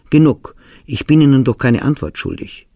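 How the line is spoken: Called out. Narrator (German): er rief

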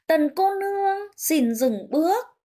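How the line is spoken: Young girl calling out. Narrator (Vietnamese): một tiểu nha đầu kêu lên

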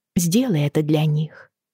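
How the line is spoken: Quiet. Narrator (Russian): сказала она тихо

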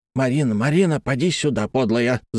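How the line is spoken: Old woman hissing. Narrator (Russian): зашипела старуха

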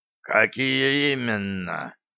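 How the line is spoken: Hoarse croaked reply. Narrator (Russian): прохрипел кто-то в ответ

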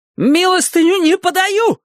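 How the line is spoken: Shouted in falsetto. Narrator (Russian): фальцетом выкрикнул он

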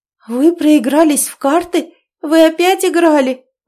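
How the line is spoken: Young woman, exasperated exclamation. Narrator (Russian): воскликнула девушка в сердцах

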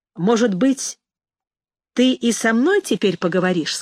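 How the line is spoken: Plain. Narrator (Russian): сказала

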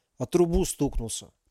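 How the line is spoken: Grumbling. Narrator (Russian): пробурчал Максим

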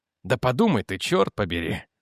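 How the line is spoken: Grumbled, relieved, not angry. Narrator (Russian): буркнул Элайдж, но без злости, скорее с облегчением

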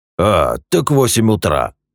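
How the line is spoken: Snort. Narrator (Russian): хмыкнул Бишоп

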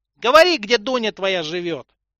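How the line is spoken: Shouted. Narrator (Russian): крикнул

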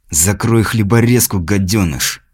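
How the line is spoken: Angry hiss. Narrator (Russian): прошипел рассерженный наемник

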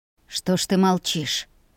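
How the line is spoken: Dragon's tired exhale. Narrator (Russian): устало выдохнул дракон

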